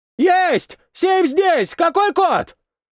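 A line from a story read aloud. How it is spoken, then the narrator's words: Soldier's shout. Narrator (Russian): прокричал боец, добравшийся до своей цели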